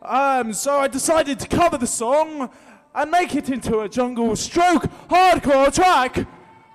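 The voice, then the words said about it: Silly put-on voice. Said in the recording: “I don't know why I'm doing this stupid voice,”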